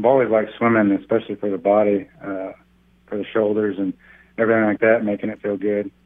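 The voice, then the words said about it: Oklahoma accent. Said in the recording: “Being from Oklahoma and just, you know, just hearing your accent”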